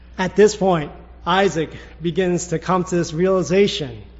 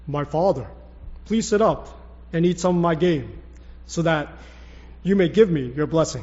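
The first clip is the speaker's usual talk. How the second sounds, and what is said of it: Put-on Esau character voice. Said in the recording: “I was trying to do the Esau voice. Could you tell?”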